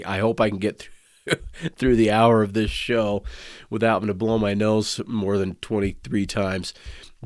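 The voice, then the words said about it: Raspy voice from a cold. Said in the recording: “Can you hear that? If you can tell, my voice is a little bit raspier than usual... Sore throat, runny nose”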